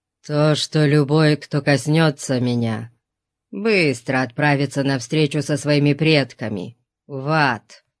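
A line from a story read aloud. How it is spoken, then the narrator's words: Through clenched teeth. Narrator (Russian): Процедил кемериец сквозь сжатые зубы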